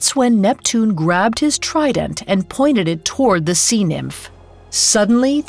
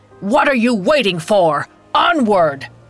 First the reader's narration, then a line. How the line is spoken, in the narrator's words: boomed